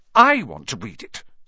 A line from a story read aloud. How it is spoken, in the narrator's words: said Harry furiously